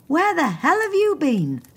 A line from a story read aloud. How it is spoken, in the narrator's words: shouted Marion